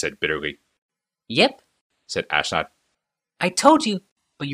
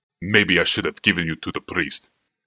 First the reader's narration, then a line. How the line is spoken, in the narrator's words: snarled Thanos